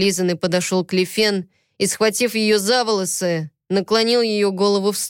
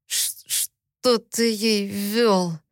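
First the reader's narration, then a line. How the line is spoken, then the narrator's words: Strained, barely articulated words. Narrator (Russian): С трудом выдавил я, чувствуя, что губы и язык почти не слушаются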